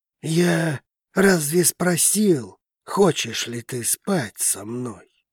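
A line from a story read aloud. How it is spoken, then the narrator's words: Grim male voice. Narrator (Russian): мрачно произнес мужчина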